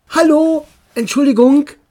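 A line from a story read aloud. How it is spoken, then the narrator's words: Called out. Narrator (German): rief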